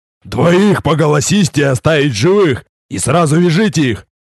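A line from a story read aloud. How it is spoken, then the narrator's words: Growling shout. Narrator (Russian): Обладатель тяжелых сапог рычащим голосом крикнул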